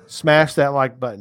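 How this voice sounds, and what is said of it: Very bad put-on Australian accent. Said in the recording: “That's my very bad Australian accent.”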